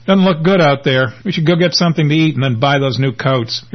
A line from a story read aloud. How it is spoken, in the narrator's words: Sighing, he says